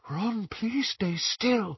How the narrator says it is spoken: Luna whispered

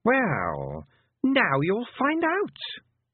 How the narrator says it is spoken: said the Queen, smiling sweetly

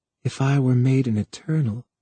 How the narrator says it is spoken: she breathed, almost in his ear, though the words were scarcely heard

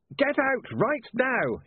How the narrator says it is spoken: he yelled

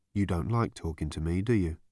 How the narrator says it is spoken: said Marvin in a low, desolate tone

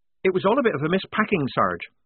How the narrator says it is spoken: said Polly quickly, anxious to keep away from anything connected with missing ringlets

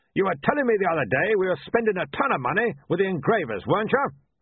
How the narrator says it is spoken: He barked

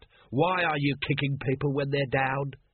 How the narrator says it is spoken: he rasped

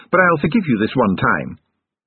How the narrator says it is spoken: Sillitoe sharply

